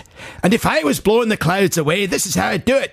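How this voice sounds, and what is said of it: Put-on Scottish accent. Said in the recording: “If you live in Scotland and you were insulted by ... accent”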